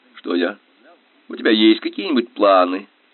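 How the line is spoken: Laughing. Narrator (Russian): Он рассмеялся

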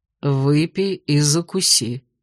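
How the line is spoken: Low-voiced advice. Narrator (Russian): вполголоса посоветовал мне Ладенье

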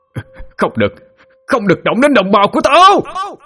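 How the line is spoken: Roaring scream. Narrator (Vietnamese): Tiếng hét to tới mức cứ như một con trọng đang gầm vang

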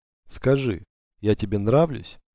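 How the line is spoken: Plain. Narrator (Russian): спросила она

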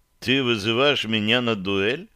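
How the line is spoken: Calm question. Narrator (Russian): спокойно осведомился

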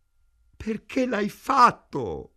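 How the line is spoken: Moaning. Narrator (Italian): gemette Ida

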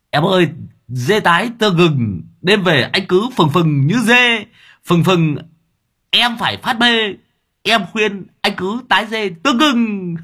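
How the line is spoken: Joyful exclamation. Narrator (Vietnamese): Long đầu đất reo lên sung sướng

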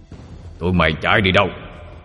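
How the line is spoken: Old man shouting. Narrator (Vietnamese): Ông già quát

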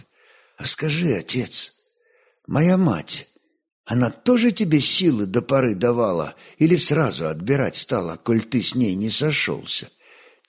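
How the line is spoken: Quiet question. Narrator (Russian): тихо спросил Олег

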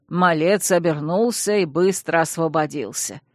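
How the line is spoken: Butler's snorting scoff. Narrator (Russian): хмыкнул дворецкий

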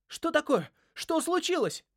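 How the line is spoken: Sharp cry. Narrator (Russian): вскрикнул Джаспер

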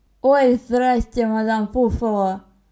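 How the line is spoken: Hoarse voice. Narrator (Russian): произнес осипшим голосом Константин

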